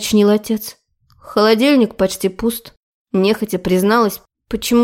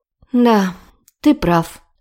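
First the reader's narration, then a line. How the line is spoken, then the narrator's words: Sigh. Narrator (Russian): вздохнула я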